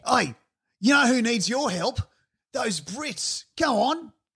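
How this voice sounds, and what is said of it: Put-on Australian accent. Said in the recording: “In that Australian voice?”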